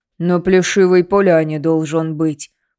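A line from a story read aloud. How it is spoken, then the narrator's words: Booming from above. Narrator (Russian): прогудел Тихон сверху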